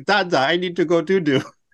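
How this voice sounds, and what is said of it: Baby talk voice. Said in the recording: “baby voice ... he'll do a baby voice”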